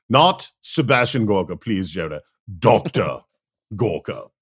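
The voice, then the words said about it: Over-enunciated British Sebastian Gorka impression. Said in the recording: “That is a quite good Gorka you do there ... over-enunciate everything in a ridiculous British accent”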